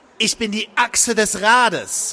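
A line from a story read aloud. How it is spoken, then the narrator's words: Exclamation. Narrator (German): rief Crowley aus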